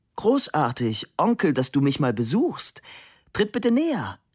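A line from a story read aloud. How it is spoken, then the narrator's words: Calling out. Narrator (German): rief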